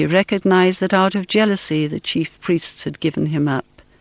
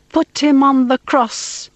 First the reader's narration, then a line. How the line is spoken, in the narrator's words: Again they cried out